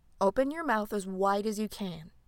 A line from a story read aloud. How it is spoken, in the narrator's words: Thyme said in an instructive, caring tone